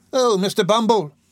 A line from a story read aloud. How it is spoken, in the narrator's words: cried the lady